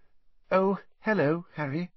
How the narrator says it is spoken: she said in a brittle voice

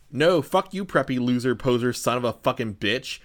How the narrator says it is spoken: Vampire said under his breath in a disgusted way

